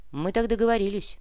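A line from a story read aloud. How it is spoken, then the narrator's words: Wry snort. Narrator (Russian): хмыкнул Кортес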